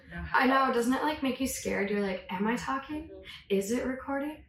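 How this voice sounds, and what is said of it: Hoarse, nasal voice. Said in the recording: “I still don't have my voice ... But not my voice ... apologies ahead of time for me sounding a little hoarse ... Oh, I'm definitely nasally.”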